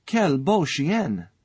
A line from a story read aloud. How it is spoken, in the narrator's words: cried the French people